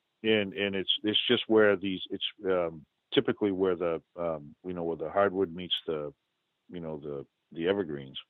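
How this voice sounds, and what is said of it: New England accent. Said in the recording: “that's my New England accent”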